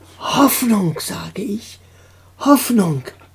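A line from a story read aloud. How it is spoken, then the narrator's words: Whisper in ear. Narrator (German): flüsterte Roxane Anton ins Ohr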